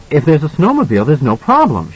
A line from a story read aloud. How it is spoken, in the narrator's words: she said excitedly